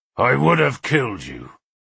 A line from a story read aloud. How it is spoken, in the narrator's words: he said in his growling voice